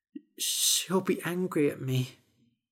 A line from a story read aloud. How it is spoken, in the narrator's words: he said quietly